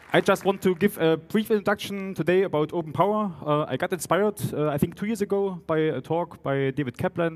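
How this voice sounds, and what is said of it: German Saxon accent in English. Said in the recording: “my strong German-Saxon mixture of German and English ... the accent is still a mixture of Saxon and German”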